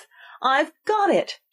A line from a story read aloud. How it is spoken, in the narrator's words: she cried in a triumphant tone